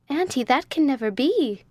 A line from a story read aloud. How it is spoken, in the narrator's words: exclaimed Rose